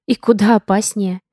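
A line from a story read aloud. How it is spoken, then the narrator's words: Entranced breathless exhale. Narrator (Russian): выдохнула Алиса, завороженно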